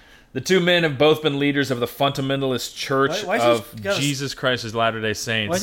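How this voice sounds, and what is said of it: Usual voice. Nothing is said of it.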